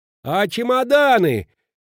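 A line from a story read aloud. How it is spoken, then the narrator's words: Shout from a cab. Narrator (Russian): крикнул, высунувшись из кабины Петрина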